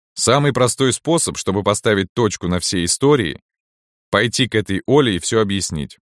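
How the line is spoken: Plain. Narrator (Russian): сказал дед

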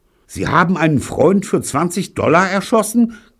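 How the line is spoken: Shrieked in disbelief. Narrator (German): kreischte Gene fassungslos

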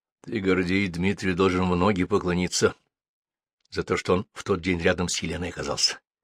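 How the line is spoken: Whispered. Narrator (Russian): шепотом сказал им Лев Иванович

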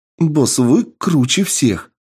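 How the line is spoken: Happy. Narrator (Russian): радостно сказала Энн

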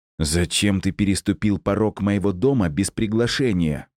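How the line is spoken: Hissed. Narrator (Russian): прошипел

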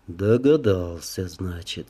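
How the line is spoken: Calm, matter-of-fact. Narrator (Russian): спокойно, словно констатируя факт, произнес он

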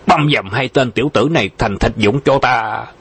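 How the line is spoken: Angry roar. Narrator (Vietnamese): y tức giận gầm lên

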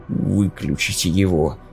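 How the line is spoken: Exhausted mutter. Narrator (Russian): пробормотал в навалившемся изнеможении

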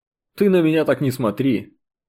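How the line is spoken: Hmphing. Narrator (Russian): хмыкнул прапорщик

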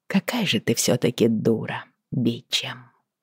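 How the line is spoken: Tired muttering. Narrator (Russian): пробормотала я, устало

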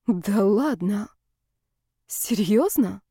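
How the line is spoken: Bewildered mutter. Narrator (Russian): растерянно пробормотала Ева

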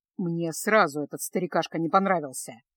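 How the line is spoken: Grumbling. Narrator (Russian): проворчал Кайл

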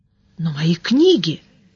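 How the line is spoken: Bewildered appeal. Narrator (Russian): растерянно воззвал мэтр Анрах

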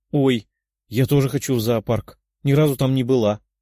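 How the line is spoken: Exclaiming. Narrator (Russian): воскликнула Виктория

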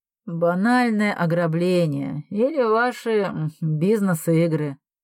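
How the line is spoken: Bored reply. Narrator (Russian): Скучающим голосом ответил Перекусов

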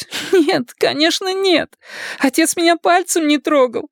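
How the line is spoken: Sobbing speech. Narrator (Russian): проговорила она, всхлипывая

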